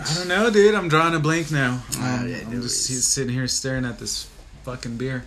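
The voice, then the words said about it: Slurred, tipsy speech. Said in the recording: “I think I'm slurring my words already. ... Oh, yeah. You're slurring them.”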